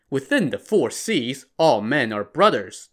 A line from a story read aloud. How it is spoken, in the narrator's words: the squire answered